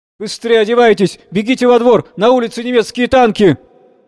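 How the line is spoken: Alarmed breathless shout. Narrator (Russian): встревоженный запыхавшийся санитар, сходу закричал

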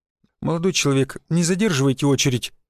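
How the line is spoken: Timid request, young man. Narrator (Russian): робко попросил веснушчатый парень

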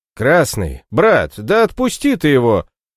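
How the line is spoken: Repeated shout. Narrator (Russian): снова крикнул Эгель

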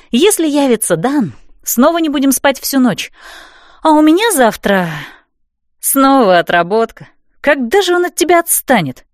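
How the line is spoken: Exasperated exhale. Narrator (Russian): в сердцах выдохнула Стефи

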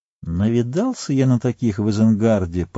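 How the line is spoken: Muttering. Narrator (Russian): пробормотал Мэри

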